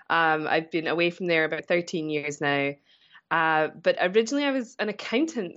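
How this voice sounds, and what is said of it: Scottish accent. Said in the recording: “my accent. I'm originally from Scotland.”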